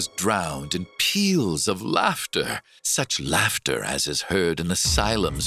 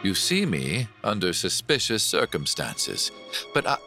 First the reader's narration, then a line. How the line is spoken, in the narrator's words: said coolly